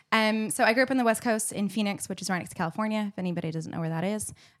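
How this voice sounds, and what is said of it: American accent. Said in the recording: “you can probably tell from your accent, American”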